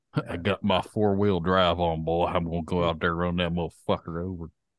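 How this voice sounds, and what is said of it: Put-on Southern American accent. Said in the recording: “We got a southern accent since we're from Indiana.”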